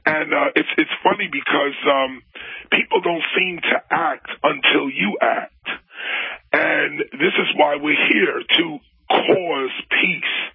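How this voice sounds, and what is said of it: Worn, strained voice. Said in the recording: “you could tell by my voice. Last night we were in Dallas screaming at the audience”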